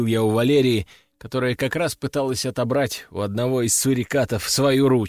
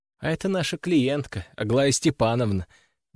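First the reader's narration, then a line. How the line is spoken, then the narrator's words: Sighing. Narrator (Russian): вздохнула она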